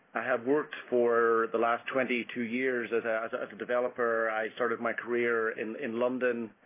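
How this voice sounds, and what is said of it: Irish accent. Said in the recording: “From my accent, I grew up in Ireland.”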